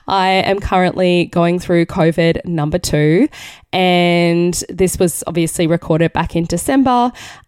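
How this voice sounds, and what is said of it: Raspy voice. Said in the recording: “the very raspy voice ... my vocal cords are not the best”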